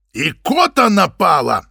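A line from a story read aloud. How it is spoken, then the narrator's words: Roared. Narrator (Russian): взревел Игорь Владимирович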